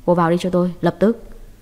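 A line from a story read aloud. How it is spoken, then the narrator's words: Low exasperated voice. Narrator (Vietnamese): Hàn Văn Hạo không chịu được, hạ giọng nói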